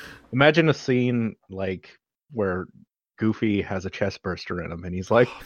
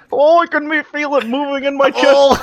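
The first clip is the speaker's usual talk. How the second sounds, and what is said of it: Cartoon Goofy character voice. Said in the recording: “Is that your Goofy accent?”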